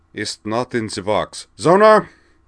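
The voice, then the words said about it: Bad put-on German accent. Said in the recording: “he adopted a bad German accent.”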